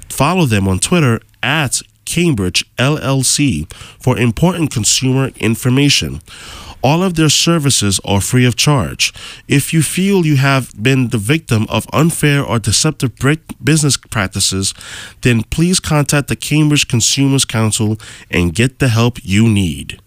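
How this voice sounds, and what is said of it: Professional radio announcer voice. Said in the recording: “That was a very professional sounding radio voice ... You got a good radio voice.”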